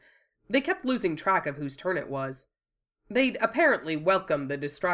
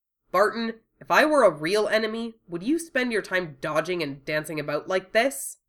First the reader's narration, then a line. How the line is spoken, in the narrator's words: he snapped